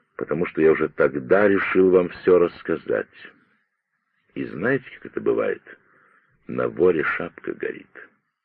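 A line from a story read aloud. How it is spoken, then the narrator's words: Quiet reply. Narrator (Russian): Браун тихо ответил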